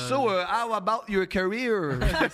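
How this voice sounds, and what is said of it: English with heavy put-on French accent. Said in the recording (French): “Comme ça, il y a un gros accent.”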